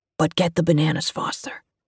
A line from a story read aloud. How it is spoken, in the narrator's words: stage whispered to her